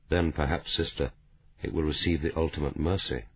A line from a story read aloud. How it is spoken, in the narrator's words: Dalgliesh said quietly